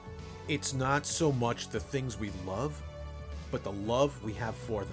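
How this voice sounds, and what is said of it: New York accent. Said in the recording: “my shitty New York accent”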